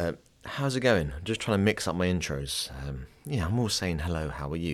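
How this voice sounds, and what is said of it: Usual voice. Nothing is said of it.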